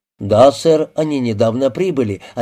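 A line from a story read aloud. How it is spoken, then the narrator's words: Plain. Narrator (Russian): ответил портье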